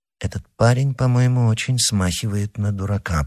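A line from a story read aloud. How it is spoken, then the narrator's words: Mutter. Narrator (Russian): пробормотал он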